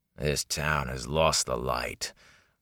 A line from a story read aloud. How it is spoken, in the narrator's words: growled the man